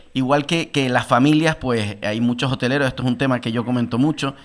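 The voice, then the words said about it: Canarian Spanish accent. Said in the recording (Spanish): “yo soy canario y lo digo, no lo puedo ocultar ni en los micrófonos porque se me nota el acento”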